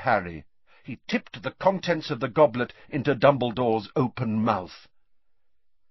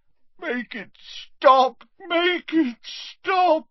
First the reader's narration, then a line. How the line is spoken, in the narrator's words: moaned Dumbledore